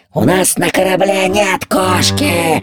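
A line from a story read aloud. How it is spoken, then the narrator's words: Roaring pirates. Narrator (Russian): взревели пираты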